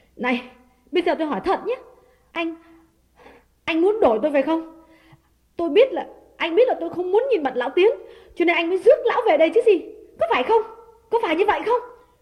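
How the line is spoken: Trembling, frightened question. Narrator (Vietnamese): nàng trố mắt run run hỏi

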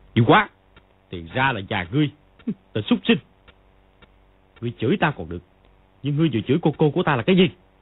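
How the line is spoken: Furious shout. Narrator (Vietnamese): cả giận, y quát

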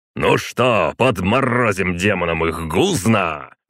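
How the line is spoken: Roaring. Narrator (Russian): взревел Николай Петрович

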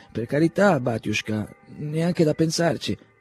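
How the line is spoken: Stammered. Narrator (Italian): balbettò Timofeich

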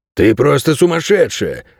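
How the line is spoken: Exclamation. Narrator (Russian): воскликнул овчар

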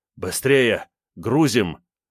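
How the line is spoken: Breathless panting exhale. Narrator (Russian): Шумно дыша, видимо, с физподготовкой у него все было плохо, выдохнул тот

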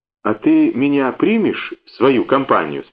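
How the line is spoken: Timid question. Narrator (Russian): спросила Надька робким голосом

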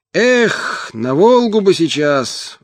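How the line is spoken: Wistful sigh. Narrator (Russian): вздохнул Мотя

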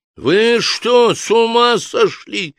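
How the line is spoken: Shout. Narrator (Russian): закричал Ришар

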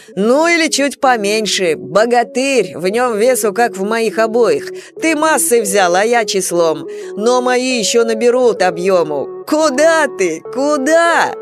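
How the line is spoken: Loud laughter. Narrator (Russian): захохотал Степан в спину брата

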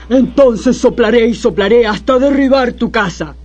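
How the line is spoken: Wolf growling. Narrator (Spanish): gruñó el lobo

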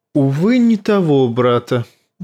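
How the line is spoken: Sighing. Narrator (Russian): вздохнул Варис

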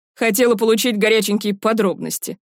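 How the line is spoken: Smirking snort. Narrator (Russian): хмыкнул Пашка

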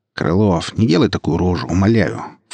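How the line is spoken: Snorting. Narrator (Russian): фыркнул собеседник

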